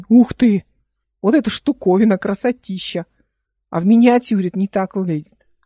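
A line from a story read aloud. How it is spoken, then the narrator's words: Exclaiming. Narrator (Russian): воскликнул он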